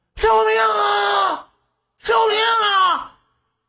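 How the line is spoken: Shouting for help. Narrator (Chinese): 大声呼救

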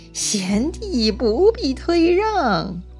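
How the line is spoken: Cheerful, grinning. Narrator (Chinese): 吕布就笑嘻嘻地说

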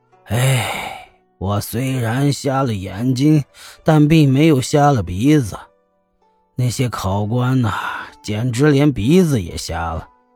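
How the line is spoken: Sighing. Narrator (Chinese): 虾和尚便叹了口气说

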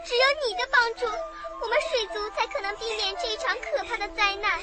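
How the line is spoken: Tearful pleading. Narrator (Chinese): 鱼儿们感动了，他们一个一个的哭着，央求露丝说

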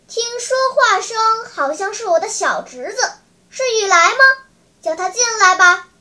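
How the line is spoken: Calling out loudly. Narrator (Chinese): 向院里喊叫说

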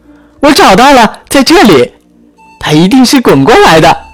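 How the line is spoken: Excited shouting. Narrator (Chinese): 珍妮兴奋的叫嚷着

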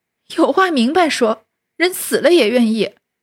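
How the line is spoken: Angry, crying. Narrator (Chinese): 平儿气得哭道

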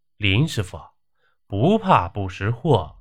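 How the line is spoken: Emotional exclamation. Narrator (Chinese): 他感叹地说

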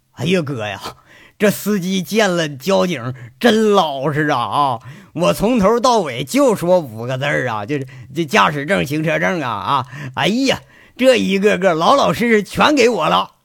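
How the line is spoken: Chuckling. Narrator (Chinese): 金刚，嘿嘿笑着 说

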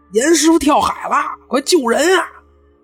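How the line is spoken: Shouting. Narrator (Chinese): 就有船员喊

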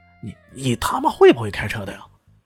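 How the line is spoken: Loud, shrill, high-pitched. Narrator (Chinese): 他的声音很大，而且高了八度，极其尖利

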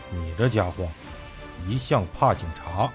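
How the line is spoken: Cold. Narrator (Chinese): 陈斌冷冷地说道

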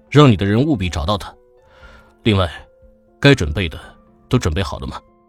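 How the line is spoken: Deep-voiced command. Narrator (Chinese): 他沉声吩咐

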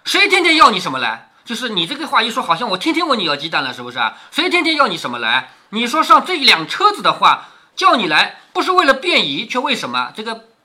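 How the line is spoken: Embarrassed flustered shout. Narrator (Chinese): 莲儿听了，便红了脸，喊道

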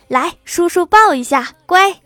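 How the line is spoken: Excited, habitual cooing. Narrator (Chinese): 初为人父的郭大侠那叫一个激动啊，嘴里还习惯性的说着

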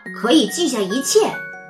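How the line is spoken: Gruff loud voice. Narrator (Chinese): 他粗声粗气的大声说

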